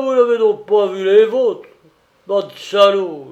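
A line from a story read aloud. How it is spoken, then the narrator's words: Angry shout. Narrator (French): leur cria-t-il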